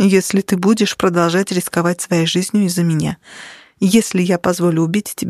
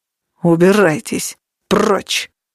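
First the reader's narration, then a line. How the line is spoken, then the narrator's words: Menacing growl. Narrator (Russian): Угрожающее рычание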